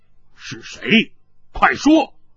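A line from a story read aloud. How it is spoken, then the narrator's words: Stern sharp voice. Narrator (Chinese): 云逸厉声说道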